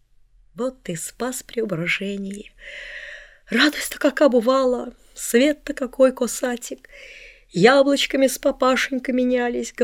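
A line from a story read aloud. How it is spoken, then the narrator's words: Sobbing old man. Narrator (Russian): говорил он, всхлипывая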